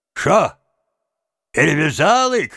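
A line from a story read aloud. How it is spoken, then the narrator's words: Cossacks shouting from below. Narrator (Russian): кричали им снизу запорожцы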